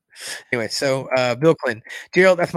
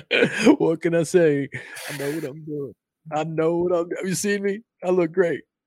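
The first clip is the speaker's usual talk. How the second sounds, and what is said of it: Imitates another person's voice. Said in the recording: “that's my Bill Clinton, my best Bill Clinton impersonation.”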